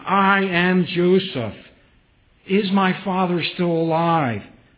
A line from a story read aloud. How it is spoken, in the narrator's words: weeping loudly and weeping in sense with joy and weeping with reconciliation, says